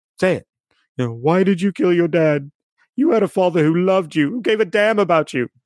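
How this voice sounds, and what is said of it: Imitates a film character's voice. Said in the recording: “my Rey impression”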